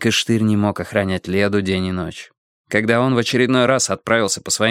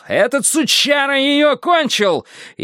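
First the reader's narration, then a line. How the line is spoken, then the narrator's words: Yelled. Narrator (Russian): Штырь заорал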